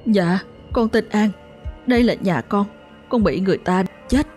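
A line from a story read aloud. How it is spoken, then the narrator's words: Whimpering, tearful. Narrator (Vietnamese): con Thư mếu máo nói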